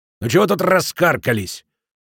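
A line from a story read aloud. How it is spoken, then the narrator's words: Growling. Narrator (Russian): зарычал на нее корчмарь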